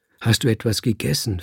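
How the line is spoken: Plain question. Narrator (German): fragte Maman an

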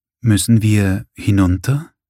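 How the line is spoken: Hesitant question. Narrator (German): fragte Gasperlmeier zögernd

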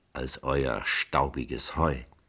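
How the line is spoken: Murmuring. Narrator (German): murmelte

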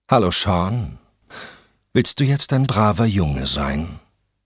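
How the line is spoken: Plain question. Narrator (German): fragte Valerie

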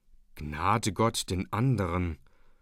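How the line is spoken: Quiet inner voice. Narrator (German): sprach es leise in ihm

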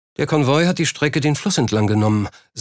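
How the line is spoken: Plain. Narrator (German): sagte Wilkinson

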